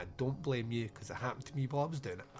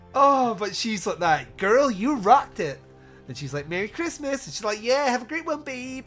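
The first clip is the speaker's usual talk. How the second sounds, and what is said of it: Fake American woman accent. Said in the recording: “my fake American woman accent”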